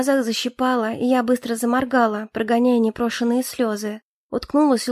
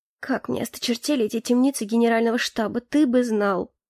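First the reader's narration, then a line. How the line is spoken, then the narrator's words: Muttering. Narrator (Russian): пробормотала я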